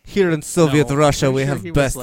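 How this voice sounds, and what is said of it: Bad put-on Russian accent. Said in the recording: “I'm so bad with the Russian accent... It's terrible.”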